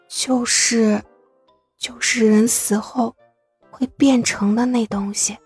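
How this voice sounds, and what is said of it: Speaking very quietly. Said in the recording (Chinese): “苏荣说的很小声”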